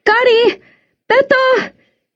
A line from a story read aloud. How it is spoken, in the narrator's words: shouted again